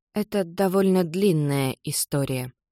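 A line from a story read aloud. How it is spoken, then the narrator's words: Daughter's mumble. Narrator (Russian): бормочет дочка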